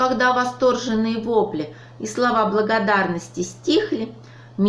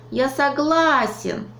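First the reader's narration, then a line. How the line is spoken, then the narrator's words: Exclaimed. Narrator (Russian): воскликнул Веня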